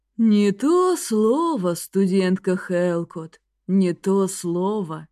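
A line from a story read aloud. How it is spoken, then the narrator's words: Sad sigh. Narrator (Russian): печально вздохнул библиотекарь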